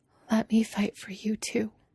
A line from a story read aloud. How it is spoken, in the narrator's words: she whispers